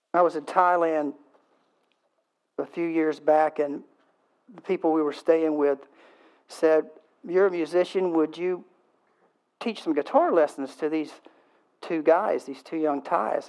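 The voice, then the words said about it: Southern American accent. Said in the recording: “I do speak Southern.”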